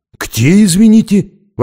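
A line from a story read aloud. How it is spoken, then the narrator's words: Surprised exclamation. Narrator (Russian): воскликнул он удивленно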